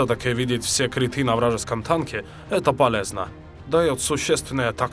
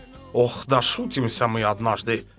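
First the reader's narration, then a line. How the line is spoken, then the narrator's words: Sighing. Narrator (Russian): вздохнул Отто Фюрст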